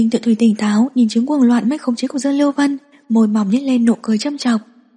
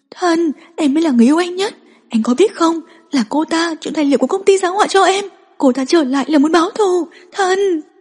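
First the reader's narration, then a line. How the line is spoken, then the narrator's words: Frantic screaming plea. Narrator (Vietnamese): Dương Lưu Vân không để ý hình tượng, gào thét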